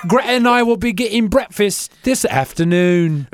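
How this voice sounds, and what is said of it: Mock British accent. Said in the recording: “That sounds like how I think British people say Brexit”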